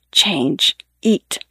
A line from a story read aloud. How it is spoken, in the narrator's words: he whispers